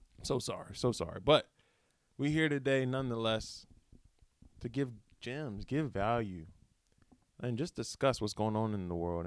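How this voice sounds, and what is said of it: Rough, impaired speaking voice. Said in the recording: “Excuse the voice. I don't have the best uh, listening voice right now ... a hairball”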